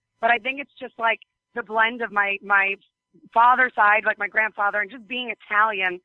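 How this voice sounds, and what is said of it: New York-sounding accent. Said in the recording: “I apparently have some accent that's from New York”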